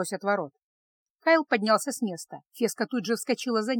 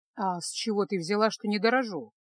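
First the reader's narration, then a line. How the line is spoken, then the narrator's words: Calm retort. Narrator (Russian): также спокойно парировал маг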